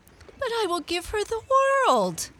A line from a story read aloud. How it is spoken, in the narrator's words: cried the goldfish